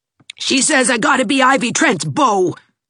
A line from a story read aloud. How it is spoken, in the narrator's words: snarled Gerald